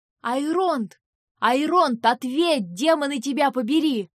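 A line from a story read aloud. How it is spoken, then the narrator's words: Yelling. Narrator (Russian): заорал Винс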